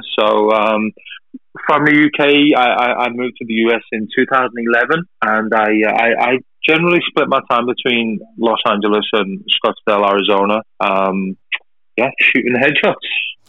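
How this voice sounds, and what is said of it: British accent. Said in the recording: “I'm from the UK. You might be able to tell the accent is not from Arizona.”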